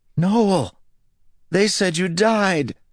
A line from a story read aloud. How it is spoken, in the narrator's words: cried